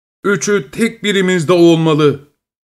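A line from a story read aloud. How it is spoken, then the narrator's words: Group shouting. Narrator (Turkish): diye haykırmışlar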